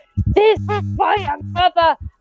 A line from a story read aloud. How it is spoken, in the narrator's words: I just want to shout